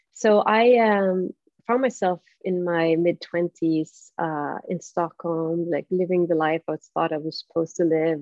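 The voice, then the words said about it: Swedish accent. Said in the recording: “I'm from Sweden originally, so if you detect an accent, which you do”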